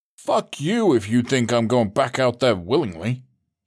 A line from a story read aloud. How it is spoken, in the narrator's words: he scoffed